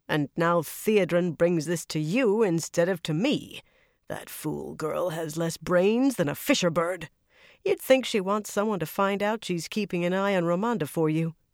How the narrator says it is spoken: she growled

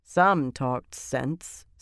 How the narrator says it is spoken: Sylviana said dryly

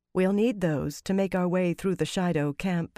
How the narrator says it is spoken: Fael said gently

